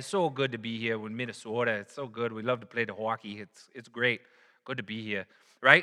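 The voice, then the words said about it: Mock Minnesota accent. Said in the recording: “you got people from Minnesota, right?”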